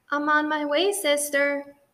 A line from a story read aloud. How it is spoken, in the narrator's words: shouted Baby